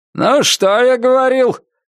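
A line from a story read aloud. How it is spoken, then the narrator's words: Shouted. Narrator (Russian): крикнул капитан за рулем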